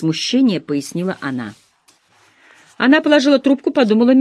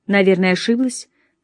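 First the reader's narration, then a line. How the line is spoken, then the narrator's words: Plain. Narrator (Russian): сказала миссис Бентри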